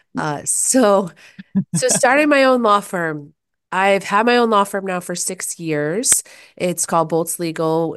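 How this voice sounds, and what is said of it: Hoarse, less peppy voice. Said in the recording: “I've been getting over sickness, so my voice is a little bit hoarse. So I'm not maybe going to sound as peppy as I otherwise would ... this isn't my normal voice.”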